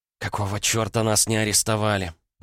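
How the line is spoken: Groaning. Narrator (Russian): простонала Матильда

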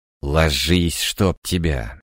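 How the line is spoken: Growled command. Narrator (Russian): рыкнул я на пса

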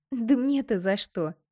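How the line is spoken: Brave laughter. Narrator (Russian): Рассмеялась храбро

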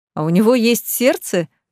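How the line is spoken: Laughing. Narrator (Russian): засмеялся Ричард

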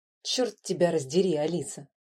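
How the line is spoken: Grumbling. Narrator (Russian): проворчал

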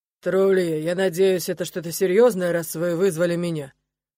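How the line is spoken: Low, slightly husky voice. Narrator (Russian): Голос вошедшего звучит низко и слегка хрипотцой

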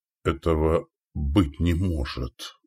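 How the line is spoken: Whispered. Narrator (Russian): прошептал Валибор

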